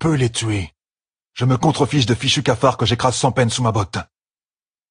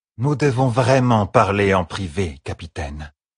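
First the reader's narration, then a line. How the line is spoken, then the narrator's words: Plain. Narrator (French): dit Tylee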